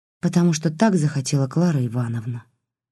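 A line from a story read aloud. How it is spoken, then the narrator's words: Dull, lifeless voice. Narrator (Russian): потухшим голосом ответила Лиля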